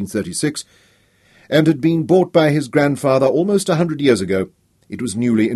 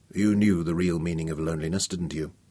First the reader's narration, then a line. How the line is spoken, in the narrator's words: he asked softly